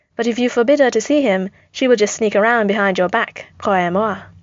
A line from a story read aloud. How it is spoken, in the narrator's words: breathed